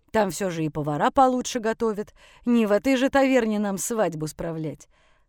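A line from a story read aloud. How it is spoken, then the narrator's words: Snorting. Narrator (Russian): хмыкнул он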